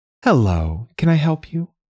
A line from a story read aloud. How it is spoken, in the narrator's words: A woman smiled warmly